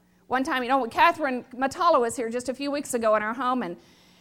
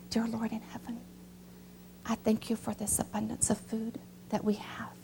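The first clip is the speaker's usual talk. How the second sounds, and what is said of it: Small, soft voice imitating another person. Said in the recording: “in her little voice”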